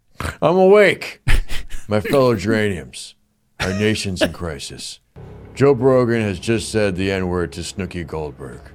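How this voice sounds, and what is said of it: Joe Biden impression. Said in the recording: “a Joe Biden impersonator ... Is he good? ... Yeah, it's fine.”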